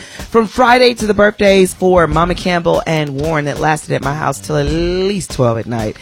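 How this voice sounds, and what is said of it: Hoarse voice. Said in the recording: “You can hear in this hoarse voice of mine that I've been talking all weekend”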